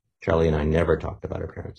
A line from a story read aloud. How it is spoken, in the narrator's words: he said